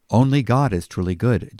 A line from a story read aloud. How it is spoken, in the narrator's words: Jesus says